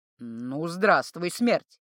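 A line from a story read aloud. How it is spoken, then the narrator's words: Clear but hoarse. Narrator (Russian): Четко, хоть и хрипло, произнес он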